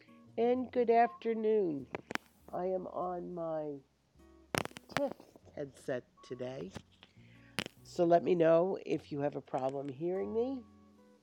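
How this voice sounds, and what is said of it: Voice roughened by illness. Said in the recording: “forgive my voice. I'm fighting God knows what diseases these days”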